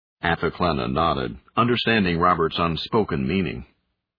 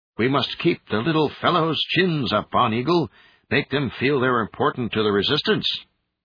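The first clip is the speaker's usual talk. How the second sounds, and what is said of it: Higher-pitched South Asian accent. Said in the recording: “His voice rose a quarter octave as he mimicked the Terrigan Marine's South Asian accent.”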